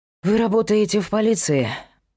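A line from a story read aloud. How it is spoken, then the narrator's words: Sighed. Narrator (Russian): вздохнул он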